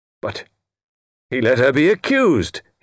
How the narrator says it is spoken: cried

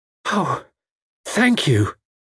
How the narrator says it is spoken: she gasped

